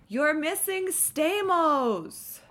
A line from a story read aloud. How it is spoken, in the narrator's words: Augie whined